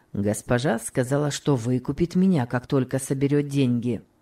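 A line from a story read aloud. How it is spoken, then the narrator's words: Plain. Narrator (Russian): ответил Том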